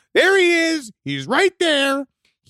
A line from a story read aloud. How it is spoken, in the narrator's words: I was screaming and crying out